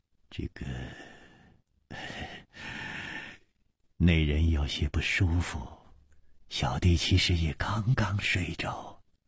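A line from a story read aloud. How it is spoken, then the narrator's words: Sighing. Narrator (Chinese): 李玉涵也叹了一口气说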